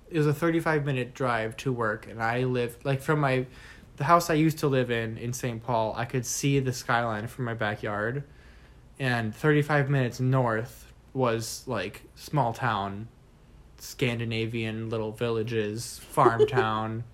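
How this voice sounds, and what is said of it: Minnesota accent. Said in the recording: “Minnesota. It's very Norwegian, it's very Scandinavian ... I don't know if you can tell by our accents ... I love my accent.”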